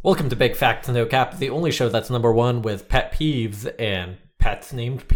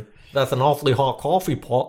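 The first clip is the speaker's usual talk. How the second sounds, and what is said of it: Put-on British accent. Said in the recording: “Why is he British? ... that sounds British. Does that not sound British to you?”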